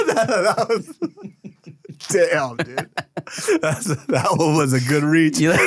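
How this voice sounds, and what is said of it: Usual voice. Nothing is said of it.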